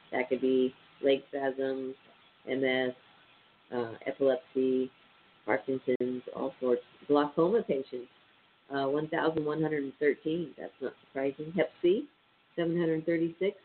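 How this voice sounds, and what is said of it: Stuffy, nasal voice. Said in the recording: “I sound a little stuffy ... these allergies ... so I sound real nasally”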